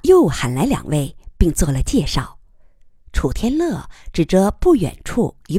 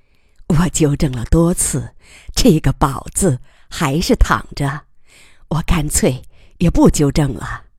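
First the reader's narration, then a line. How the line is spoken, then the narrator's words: Resigned laugh. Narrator (Chinese): 白厂长无奈的笑着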